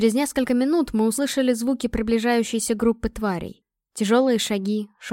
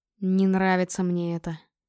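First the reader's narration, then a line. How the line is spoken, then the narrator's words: Muttering. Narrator (Russian): пробормотал Острозуб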